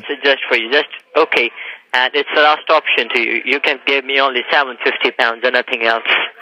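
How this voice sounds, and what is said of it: Foreign accent in English. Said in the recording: “I can't understand your accent, really. I have this trouble with foreigners.”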